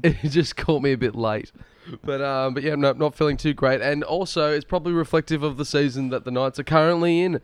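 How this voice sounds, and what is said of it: Croaky, sick-sounding voice. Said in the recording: “I feel a lot better than you sound. You're quite ill ... forgive my voice ... It's just a little bit on the croak side”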